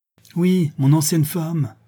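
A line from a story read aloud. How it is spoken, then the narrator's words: Angry exclamation. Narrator (French): s'écria Béchou, emporté par la colère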